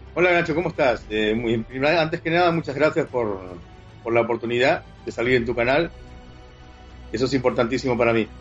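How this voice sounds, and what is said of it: Spanish accent from Spain, not Uruguayan. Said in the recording (Spanish): “el acento no se te nota muy español, ¿no? ... El acento me lo puedes notar diferente, no tengo acento uruguayo porque yo me crié en España.”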